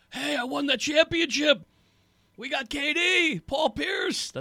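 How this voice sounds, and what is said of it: Poor Doc Rivers impression. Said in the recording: “That's the worst Doc impersonation of all time.”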